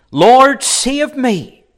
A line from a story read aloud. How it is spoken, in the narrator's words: beginning to sink, he cried, saying